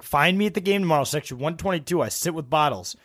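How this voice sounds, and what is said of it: Imitates another person's voice. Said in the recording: “Your Bottles impersonation of him is the best.”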